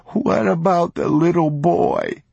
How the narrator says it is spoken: he sobbed

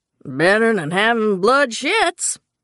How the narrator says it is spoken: Jefferson cackled

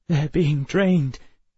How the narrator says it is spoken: Emma said, her voice shaking

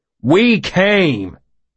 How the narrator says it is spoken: he shouted back

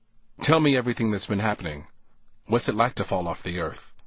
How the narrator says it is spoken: I asked

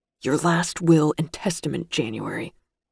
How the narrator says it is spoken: Gus whispered fiercely

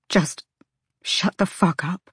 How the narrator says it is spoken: Bryce whispered

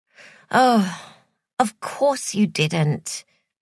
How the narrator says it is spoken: sighed Joy

